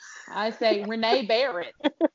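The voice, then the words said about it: Put-on Southern twang. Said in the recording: “in my Southern twang.”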